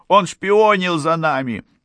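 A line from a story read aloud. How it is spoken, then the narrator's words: Frightened shout. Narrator (Russian): Мертон, который был напуган больше всех, закричал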